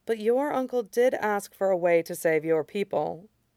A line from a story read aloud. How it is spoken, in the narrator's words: Amaya said quietly